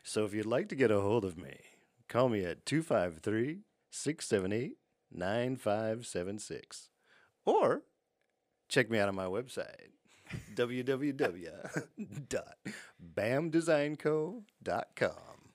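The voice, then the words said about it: Creepy put-on voice. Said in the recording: “creepy voice”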